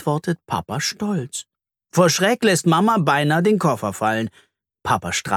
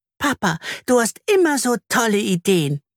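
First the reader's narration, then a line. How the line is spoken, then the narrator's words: Squeaky voice. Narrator (German): piepst Anna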